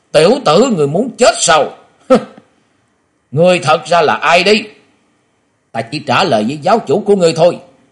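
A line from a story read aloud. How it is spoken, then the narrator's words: Sudden shouting. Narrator (Vietnamese): Quả Dân Tôn giả chợt quát lên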